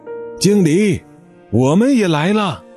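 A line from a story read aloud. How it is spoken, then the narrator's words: Repeated shouts from behind. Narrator (Chinese): 从他的身后又传来了一声声的喊叫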